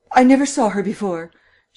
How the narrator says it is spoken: cried, then stopped abruptly

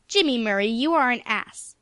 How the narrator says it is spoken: said Aunt Ruth angrily

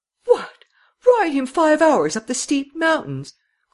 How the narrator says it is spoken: cried Miss Cummins

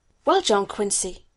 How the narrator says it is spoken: said sharply

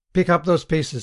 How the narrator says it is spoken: he said sharply

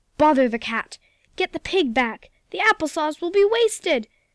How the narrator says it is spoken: shrieked the cook

